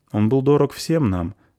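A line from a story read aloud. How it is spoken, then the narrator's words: Plain. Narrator (Russian): сказал пан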